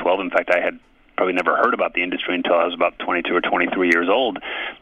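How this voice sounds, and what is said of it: American accent. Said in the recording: “you've got an American accent.”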